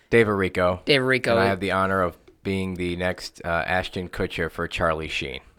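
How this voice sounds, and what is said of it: Congested voice from a cold. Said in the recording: “your voice is a little different. ... I have a cold.”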